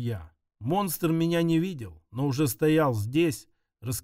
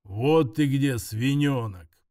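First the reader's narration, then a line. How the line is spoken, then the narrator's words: Growling. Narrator (Russian): прорычал Грул маэстро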